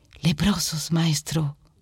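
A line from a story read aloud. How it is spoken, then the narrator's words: Murmur. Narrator (Spanish): murmura Pedro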